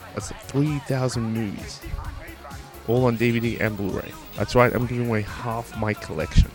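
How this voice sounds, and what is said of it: Whispering. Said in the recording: “why I'm whispering”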